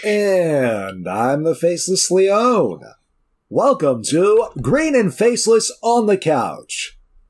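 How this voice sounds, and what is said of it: Put-on professional radio announcer voice. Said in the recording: “This is my radio voice. ... We're so professional sounding today.”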